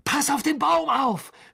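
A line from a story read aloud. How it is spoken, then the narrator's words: Shouted. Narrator (German): schrie Harry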